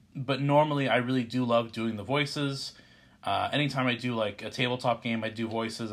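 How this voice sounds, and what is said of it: Congested, stuffy-nosed voice. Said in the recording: “I have a very stuffy nose right now, which is why I'm talking the way I am”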